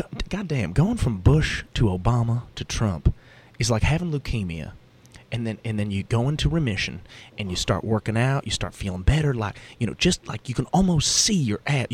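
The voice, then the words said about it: Put-on Southern redneck accent. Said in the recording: “the liberal redneck ... I can't do his accent justice”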